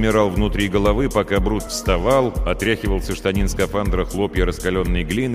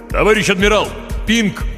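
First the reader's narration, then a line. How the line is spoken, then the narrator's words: Mental shout. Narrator (Russian): мысленно крикнул Хор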